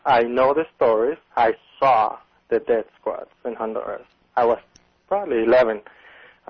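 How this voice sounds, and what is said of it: Honduran Spanish accent in English. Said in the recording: “I am native from Honduras. You can hear my accent.”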